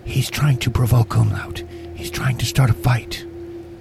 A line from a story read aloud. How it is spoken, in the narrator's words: Carrie, she whispers in your ear